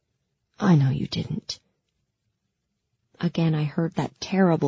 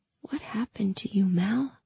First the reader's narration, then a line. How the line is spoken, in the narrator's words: I whispered